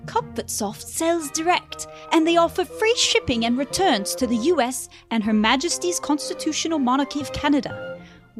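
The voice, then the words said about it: Put-on accent. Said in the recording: “Do it with an accent.”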